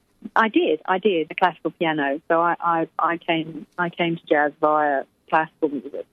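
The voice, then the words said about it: Refined English accent, clear diction. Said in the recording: “your voice is always so refined and clear and perfectly spoken. The diction is beautiful ... I'm English, darling ... my diction is very, very refined ... my English accent”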